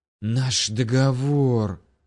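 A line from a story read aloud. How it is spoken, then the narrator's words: Loud hissing. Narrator (Russian): шипение царицы вампиров ударило по ушам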